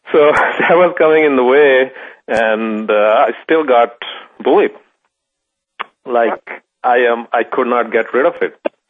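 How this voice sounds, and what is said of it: Slight Pakistani accent. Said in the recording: “The way I speak, I still have that little bit of Pakistani accent.”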